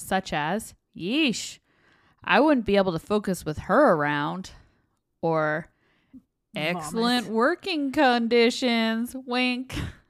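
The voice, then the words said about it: Put-on Southern US accent. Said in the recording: “I don't know why all of a sudden I put on like a Southern accent, but it just kind of came out.”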